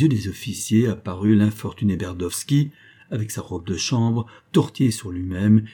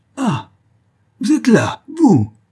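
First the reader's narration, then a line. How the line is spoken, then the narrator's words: Breathless, stunned exclamation. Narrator (French): s'écria le général, suffoqué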